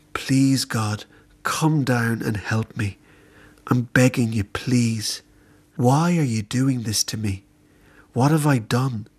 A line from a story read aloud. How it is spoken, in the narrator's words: With a fragile sigh, I began